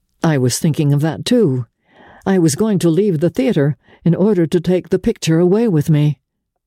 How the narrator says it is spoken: he said

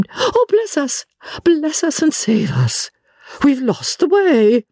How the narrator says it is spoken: she broke off and exclaimed

